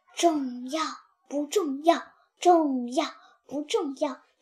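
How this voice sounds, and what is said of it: Quiet muttering to oneself. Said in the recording (Chinese): “在那儿小声自言自语”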